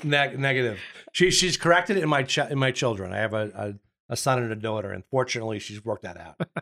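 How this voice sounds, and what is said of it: Long Island New York accent. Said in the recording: “I'm from Long Island ... your accent”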